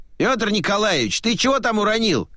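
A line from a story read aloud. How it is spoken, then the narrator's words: Distant shout from basement. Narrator (Russian): выкрикнули из подвала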